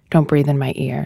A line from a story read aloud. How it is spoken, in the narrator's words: she says